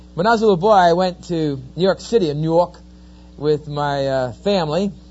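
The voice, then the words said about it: New Jersey East Coast accent. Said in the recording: “as you can tell from my accent, I'm not quite a native of Oklahoma. I'm an Easterner. I'm from New Jersey”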